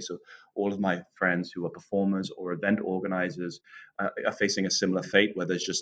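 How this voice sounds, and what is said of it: English accent, not Jamaican. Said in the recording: “anyone listening can tell by your accent, you probably didn't grow up in Jamaica ... I was born just outside of London in the county of Northamptonshire”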